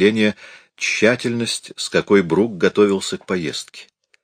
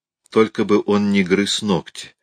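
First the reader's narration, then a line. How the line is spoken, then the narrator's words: Pleading. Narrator (Russian): взмолилась она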